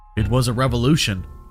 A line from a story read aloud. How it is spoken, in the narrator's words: he said evenly